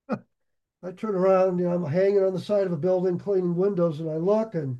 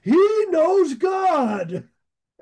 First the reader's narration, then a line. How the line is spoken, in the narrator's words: he's still yelling